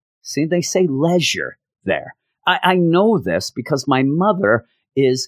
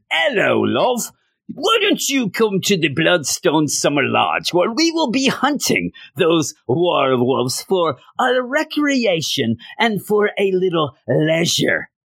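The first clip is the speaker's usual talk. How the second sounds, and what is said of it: Bad put-on British accent. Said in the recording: “That's the worst British accent ever.”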